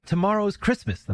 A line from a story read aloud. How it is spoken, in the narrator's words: the mother exclaimed